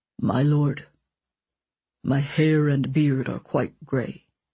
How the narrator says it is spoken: Horwath said in a low, coaxing tone

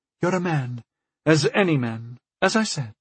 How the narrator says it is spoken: she sighed

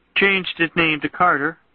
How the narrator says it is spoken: she intoned

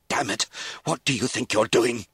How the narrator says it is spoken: he spluttered

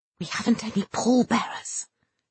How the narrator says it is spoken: he whispered hurriedly

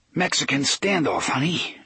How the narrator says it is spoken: Eddie panted

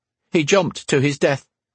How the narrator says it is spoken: he blurted out

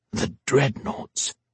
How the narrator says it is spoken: he whispered

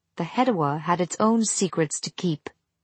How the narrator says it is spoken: Aninket said, smiling coldly

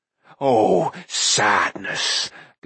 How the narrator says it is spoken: Gurgi moaned

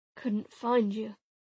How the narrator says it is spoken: Arcus muttered, his eyes closing

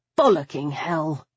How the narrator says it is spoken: I muttered

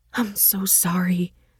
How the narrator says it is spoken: she whispered

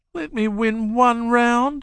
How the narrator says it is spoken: she pleaded

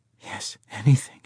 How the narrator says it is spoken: she whispered

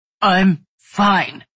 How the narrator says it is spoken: he said, tightly through clenched teeth as pain shot up and down his back

